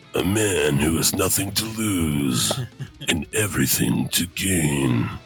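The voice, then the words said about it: Very deep movie-trailer voice. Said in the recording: “I'm sick, but my voice is pretty good right now... it sounds uh sounds very very deep... you sound just like uh, a movie trailer”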